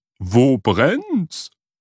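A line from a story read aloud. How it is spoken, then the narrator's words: Call. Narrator (German): rief sie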